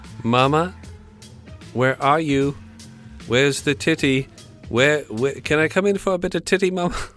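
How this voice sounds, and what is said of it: Put-on English accent. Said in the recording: “That's my English accent.”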